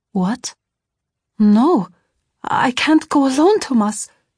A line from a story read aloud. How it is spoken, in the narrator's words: I cried in shock